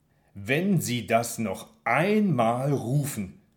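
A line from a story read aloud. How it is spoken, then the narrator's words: Slow and loud. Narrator (German): sage ich langsam und laut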